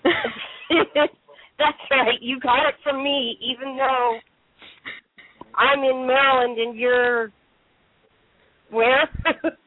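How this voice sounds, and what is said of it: Slightly weird voice, recovering from cold. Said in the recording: “my voice sounds a little weird because I'm just getting over a cold”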